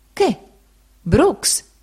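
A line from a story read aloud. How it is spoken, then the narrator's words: Gentleman exclaiming. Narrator (Italian): il signore esclamò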